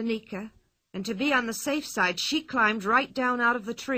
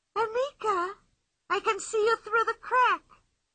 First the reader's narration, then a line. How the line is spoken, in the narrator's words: cried Pippi